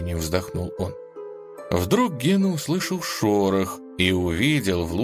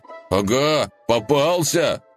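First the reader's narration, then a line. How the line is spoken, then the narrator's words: Shout. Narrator (Russian): крикнул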